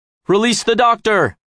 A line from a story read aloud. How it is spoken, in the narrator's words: he shouts